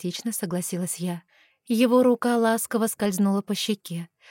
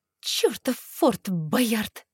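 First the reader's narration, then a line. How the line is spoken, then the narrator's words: Pained hiss through teeth. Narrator (Russian): Сквозь зубы прошипела я, потирая ушибленное бедро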